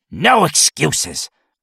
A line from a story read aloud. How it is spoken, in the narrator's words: the old man snapped